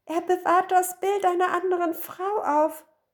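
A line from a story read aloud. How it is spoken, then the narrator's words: Call. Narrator (German): rief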